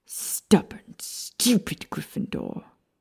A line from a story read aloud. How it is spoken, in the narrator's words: Lucius hissed